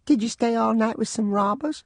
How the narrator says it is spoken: My youngest sister piped up

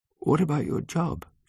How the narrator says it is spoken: She said sleepily

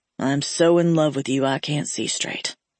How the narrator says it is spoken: he muttered against the skin on my neck

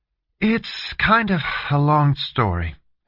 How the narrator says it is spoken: she said with a sigh

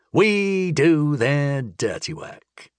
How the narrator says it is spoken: he said with a sneer

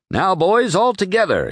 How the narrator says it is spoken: he cried

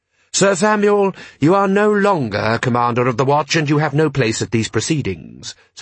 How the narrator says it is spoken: said Rust sharply

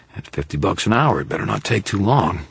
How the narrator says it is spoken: Carmichael growled

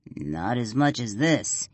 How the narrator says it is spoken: growls

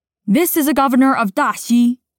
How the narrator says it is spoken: one of the soldiers at his side barks

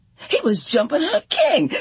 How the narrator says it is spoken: she screamed in protest

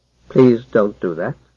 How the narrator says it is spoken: said Haplo in his quiet voice

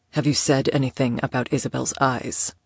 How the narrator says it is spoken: asked quietly, his tone now smooth as silk, yet that somehow made it more frightening

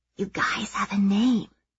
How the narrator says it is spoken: Maeve whispers, but not quietly enough that Mom doesn't hear

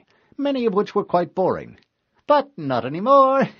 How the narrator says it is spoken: the monitor replied cheerfully

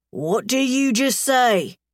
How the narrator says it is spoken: Diesel growls, his face closing down

